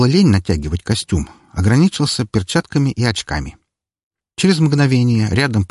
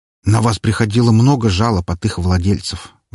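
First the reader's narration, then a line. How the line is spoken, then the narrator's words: Sigh. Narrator (Russian): вздохнул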